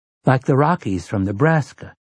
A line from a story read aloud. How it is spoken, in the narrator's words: Jake breathed